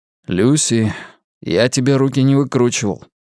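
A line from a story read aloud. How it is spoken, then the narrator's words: Gloomy reminder. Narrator (Russian): мрачно напомнил он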